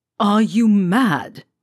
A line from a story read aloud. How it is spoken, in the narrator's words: Malfoy says, in the scathing, acid tone